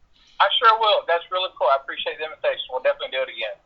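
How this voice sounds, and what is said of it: Kentucky accent. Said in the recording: “your accent is wonderful. I love it... I knew you were from Kentucky”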